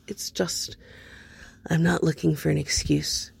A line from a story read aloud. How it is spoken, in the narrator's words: Cody interrupted, leaning closer to keep his voice quiet